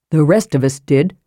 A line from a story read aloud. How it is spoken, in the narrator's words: said Riverwind coldly